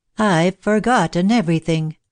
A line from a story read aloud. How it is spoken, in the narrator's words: sighed Miss Cynthia